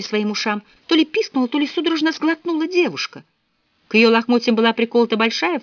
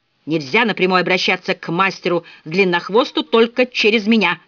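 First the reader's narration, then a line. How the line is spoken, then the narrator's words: Barked. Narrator (Russian): рявкнул он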